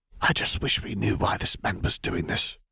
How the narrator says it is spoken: whispered Daedalus Diggle

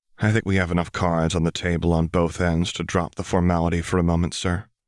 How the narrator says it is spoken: told him calmly, smiling a razor-edged smile

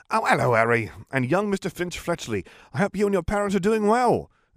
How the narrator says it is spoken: exclaimed Mr

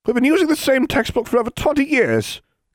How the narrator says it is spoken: Grinder exclaimed

